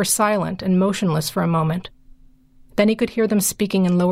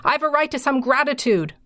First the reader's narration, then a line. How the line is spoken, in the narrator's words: he screamed down the stairs to them